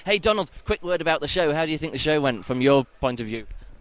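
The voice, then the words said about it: Tired, rough voice. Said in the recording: “my voice is a bit bad, I haven't slept. I slept for about 45 minutes since yesterday morning”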